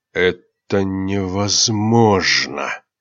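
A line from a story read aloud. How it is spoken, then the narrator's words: Hissed. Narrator (Russian): прошипел Дархарс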